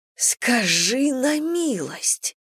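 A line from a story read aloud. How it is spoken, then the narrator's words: Hissed. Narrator (Russian): прошипела я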